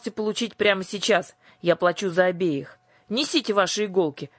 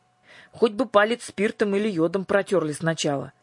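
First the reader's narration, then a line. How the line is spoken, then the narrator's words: Grumbling. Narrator (Russian): проворчала Дара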